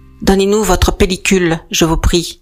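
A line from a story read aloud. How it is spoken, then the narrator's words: Curt command. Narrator (French): ordonne-t-il sèchement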